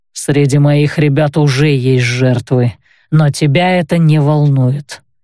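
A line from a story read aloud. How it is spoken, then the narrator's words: Grim retort. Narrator (Russian): мрачно парировал тот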